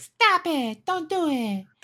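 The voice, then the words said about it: Imitates an anime character's voice. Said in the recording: “That's a pretty good Itadori impression.”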